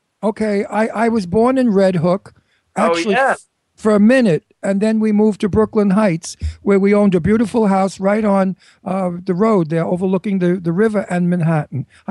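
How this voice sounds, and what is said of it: Brooklyn accent. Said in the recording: “I'm from Brooklyn ... You heard the accent, right?”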